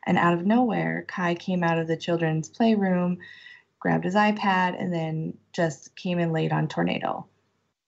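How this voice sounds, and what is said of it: Emotional, tearful voice. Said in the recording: “sorry, I'm getting emotional.”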